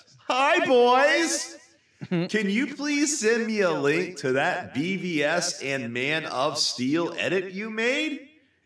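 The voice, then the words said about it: Weird put-on reading voice. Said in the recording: “Why did you do such a weird voice for him?”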